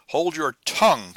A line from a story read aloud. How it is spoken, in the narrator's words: cried the captain, louder than ever